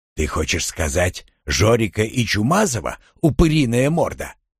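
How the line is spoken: Through clenched teeth. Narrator (Russian): Не разжимая зубов, процедил я

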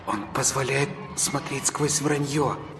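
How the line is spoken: Child's whisper. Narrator (Russian): зашептал детский голос

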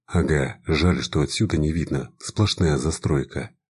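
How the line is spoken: Plain. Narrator (Russian): ответил я

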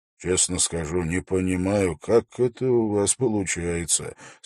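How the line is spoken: Quiet speech. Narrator (Russian): сказал он тихо

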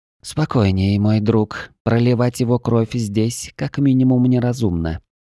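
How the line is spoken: Calm purr. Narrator (Russian): спокойно промурлыкала кошка

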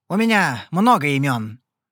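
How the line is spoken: Grating insolent voice. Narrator (Russian): ответил он наглым голосом, звук которого неприятно резанул по ушам Эварану, словно кто стал водить металлом по стеклу

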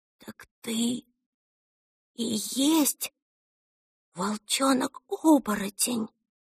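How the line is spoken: Whisper in secret language. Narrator (Russian): Она вдохнула поглубже и прошептала на тайном языке

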